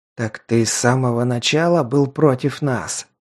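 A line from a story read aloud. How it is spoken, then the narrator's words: Angry hiss. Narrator (Russian): зло прошипел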